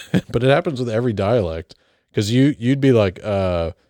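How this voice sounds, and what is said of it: Usual voice. Nothing is said of it.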